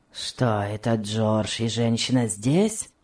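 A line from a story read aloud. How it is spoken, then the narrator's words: Grumpy question. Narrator (Russian): спросил ворчливым тоном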